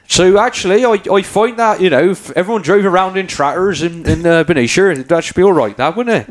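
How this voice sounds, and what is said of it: Put-on Somerset farmer's accent. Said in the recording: “Why don't you give us a Somerset accent, a farmer's accent? ... this is Hagrid from Harry Potter”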